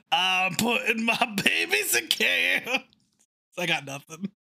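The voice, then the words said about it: Gravelly Louis Armstrong-style voice. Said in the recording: “With a Louis Armstrong accent.”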